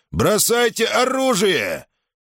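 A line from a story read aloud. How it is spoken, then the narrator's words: Menacing shout. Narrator (Russian): Гадитик грозно закричал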